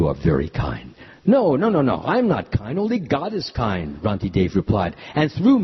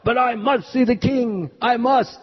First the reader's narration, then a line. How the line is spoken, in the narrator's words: another man in the hallway shouted to the guard